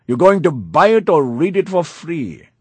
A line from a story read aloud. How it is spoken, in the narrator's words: a bookseller shouted